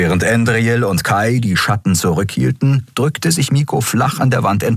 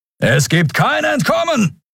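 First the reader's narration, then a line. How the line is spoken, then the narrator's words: Distant thundering voice. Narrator (German): donnerte ein narbengesichtiger Mensch am anderen Ende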